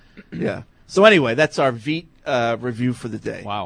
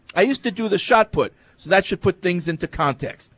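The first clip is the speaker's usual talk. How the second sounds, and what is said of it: Put-on accent that comes and goes. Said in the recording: “That was too long for you to continue accent. ... Your accent. ... Yeah. It came and went.”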